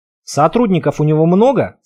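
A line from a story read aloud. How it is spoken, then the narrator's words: Plain. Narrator (Russian): спросил я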